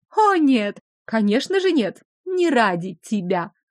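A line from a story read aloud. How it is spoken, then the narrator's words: Ringing laughter, aristocratic woman. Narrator (Russian): звонко рассмеялась аристократка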